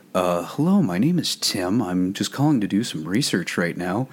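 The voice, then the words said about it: Put-on character phone voice. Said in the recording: “put on my Midnight Owl voice”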